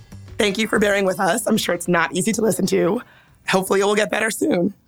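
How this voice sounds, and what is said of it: Hoarse, raspy voice. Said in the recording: “It is not, in fact, Tom Waits. I still have laryngitis. My voice is still a little bit different than usual”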